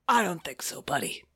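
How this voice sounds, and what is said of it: Jack Black as Bowser impression. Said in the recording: “a kind of a Jack Black as Bowser impersonation”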